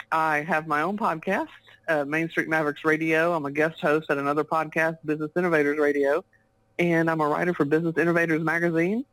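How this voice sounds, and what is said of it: Texas accent. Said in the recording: “if you can't tell by my accent, I live in the great state of Texas in the U.S.”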